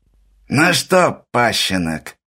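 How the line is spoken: Creaky old man's voice. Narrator (Russian): проскрипел старый вор

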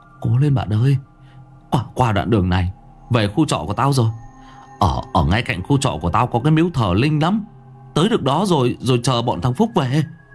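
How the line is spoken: Speaking over howling wind. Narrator (Vietnamese): Thuận nói trong tiếng gió rít

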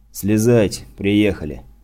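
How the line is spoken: Tired. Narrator (Russian): устало произнес Лёха

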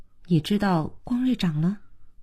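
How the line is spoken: Quiet question. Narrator (Chinese): 小可小声地问海潮

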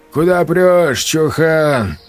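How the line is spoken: Lazy voice. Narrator (Russian): лениво подал голос Хрящ

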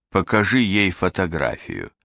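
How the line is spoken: Plain. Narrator (Russian): сказал турк

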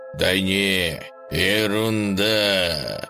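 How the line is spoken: Eerie voice. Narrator (Russian): жутким голосом сообщил дружок

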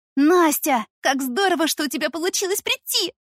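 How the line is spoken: Excited shriek. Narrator (Russian): завопила Дашка

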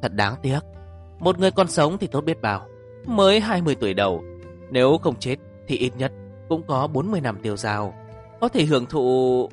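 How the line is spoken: Regretful sigh. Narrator (Vietnamese): Bạch Sầu Phi thở dài

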